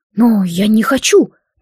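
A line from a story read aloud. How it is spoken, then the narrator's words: Confused. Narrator (Russian): также растерянно сказал Эйден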